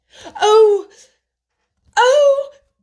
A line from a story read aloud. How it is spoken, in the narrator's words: Colin cried out in delight